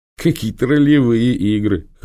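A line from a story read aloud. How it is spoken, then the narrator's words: Laughing. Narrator (Russian): хохотнул Хмара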